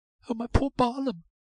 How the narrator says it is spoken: sobbed Molly

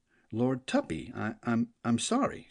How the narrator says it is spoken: stammered

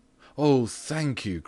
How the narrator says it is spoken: cried out the father, as if he were the one playing the violin

